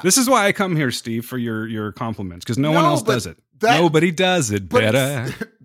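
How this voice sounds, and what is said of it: Imitates another person's voice. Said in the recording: “impersonation ... that is a very good Charlie Hunnam”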